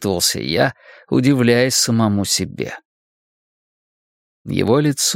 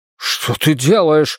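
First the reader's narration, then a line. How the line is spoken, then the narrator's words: Shout. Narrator (Russian): закричал Иисус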